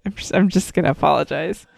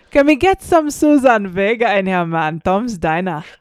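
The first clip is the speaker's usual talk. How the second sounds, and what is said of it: Put-on Jamaican reggae accent. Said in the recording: “Can I get a reggae accent requesting some Suzanne Vega? ... That's not bad, says the person who knows nothing about Jamaican accents.”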